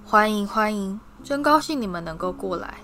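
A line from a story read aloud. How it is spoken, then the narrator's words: Lamenting. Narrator (Chinese): 他悲叹道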